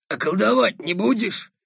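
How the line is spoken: Unexpectedly hoarse bass. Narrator (Russian): неожиданно хриплым басом спросила Кроха

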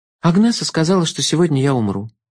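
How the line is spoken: Sad remark. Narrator (Russian): грустно заметила Алекс

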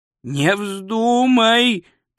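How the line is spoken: Moan. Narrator (Russian): простонал Ринсвинд

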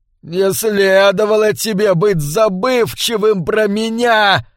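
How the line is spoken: Yoda-like squeal. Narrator (Russian): визжал Ги, совсем как Йода в

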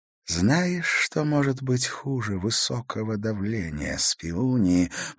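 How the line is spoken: Whisper. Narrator (Russian): прошептал Раскаль

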